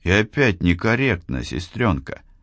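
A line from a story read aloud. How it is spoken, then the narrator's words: Sighing young man. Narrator (Russian): вздохнул юный инженер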